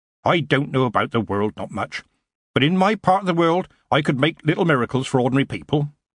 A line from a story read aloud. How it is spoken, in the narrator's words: Granny replied sharply